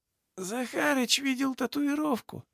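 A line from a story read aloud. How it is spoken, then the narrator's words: Through gritted teeth. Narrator (Russian): процедил сквозь зубы крест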